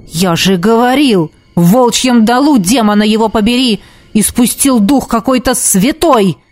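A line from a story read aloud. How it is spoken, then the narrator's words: Barking. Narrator (Russian): рявкнул темный маг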